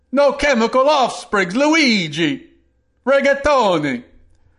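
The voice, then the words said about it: Put-on Italian accent. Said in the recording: “That's my Italian accent. I know it's like all of a sudden you were transported to Italy”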